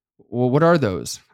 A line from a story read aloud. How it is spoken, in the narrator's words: stuttered